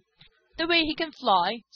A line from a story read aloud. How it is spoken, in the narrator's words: spluttered Skimmer